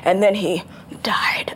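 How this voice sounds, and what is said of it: Dramatic over-the-top actor impression. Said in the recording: “he's so dramatic and he would just make everything over the top ... I love your Shatner impression. ... it's a good Shatner.”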